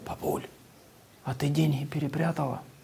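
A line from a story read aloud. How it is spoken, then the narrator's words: Quiet. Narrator (Russian): Он так подошел тихо к бабушке и сказал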